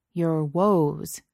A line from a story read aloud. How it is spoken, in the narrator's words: Kirk said slowly